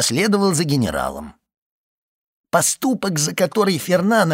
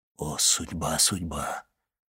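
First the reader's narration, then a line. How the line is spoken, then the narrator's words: Abbot's whisper. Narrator (Russian): прошептал аббат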